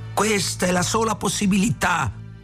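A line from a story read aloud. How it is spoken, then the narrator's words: Yelled. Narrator (Italian): urlò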